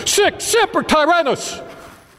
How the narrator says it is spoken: shouted

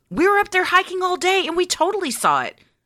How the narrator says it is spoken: I almost yelled

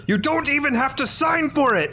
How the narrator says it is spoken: shout at her

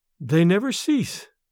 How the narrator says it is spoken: replied sadly

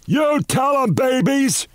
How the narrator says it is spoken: He shouted down

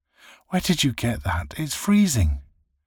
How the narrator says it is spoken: cried

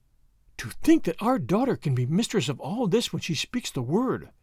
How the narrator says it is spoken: she gasped

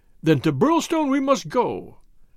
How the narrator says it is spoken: cried MacDonald

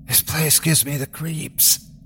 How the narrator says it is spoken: Christy whispers

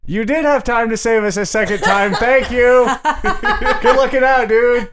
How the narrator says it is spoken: I yelled back to Toolboy

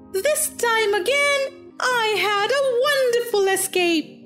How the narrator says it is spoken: He cried

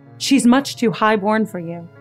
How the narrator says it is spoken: Mary said

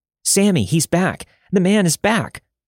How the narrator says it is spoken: my brother wailed

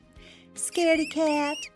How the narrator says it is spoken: the mice squeak

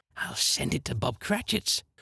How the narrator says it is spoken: whispered Scrooge ... splitting with a laugh

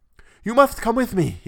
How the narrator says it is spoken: he panted

